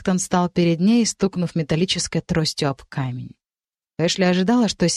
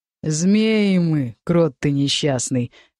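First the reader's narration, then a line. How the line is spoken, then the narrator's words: Thug's contemptuous mutter through teeth. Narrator (Russian): презрительно процедил громила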